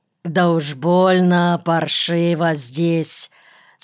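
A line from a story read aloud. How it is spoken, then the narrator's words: Doubtful drawl. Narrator (Russian): с сомнением протянул Никольский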